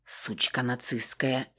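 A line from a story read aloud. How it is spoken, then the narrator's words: Barely audible whisper. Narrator (Russian): еле слышно прошептала Вероника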